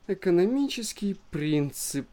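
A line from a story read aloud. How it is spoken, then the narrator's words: Drawn-out sympathetic voice. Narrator (Russian): протянула она симпатическим голосом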